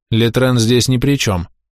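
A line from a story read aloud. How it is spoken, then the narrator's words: Calm reply. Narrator (Russian): спокойно отвечал Сер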